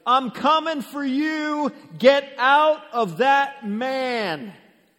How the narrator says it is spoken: Jesus, the Most High God, he's probably shouting

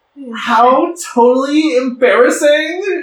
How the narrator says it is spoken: shrieked one of them named Emily

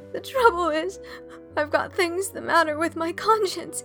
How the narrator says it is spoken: sobbed Anne

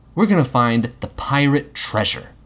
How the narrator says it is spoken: Will said

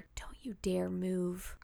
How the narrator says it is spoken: he whispered

